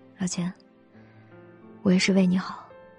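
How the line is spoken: Soft sigh. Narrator (Chinese): 肖九九只是轻叹了一句

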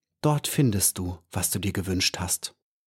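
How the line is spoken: Quiet. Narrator (German): sagte er leise

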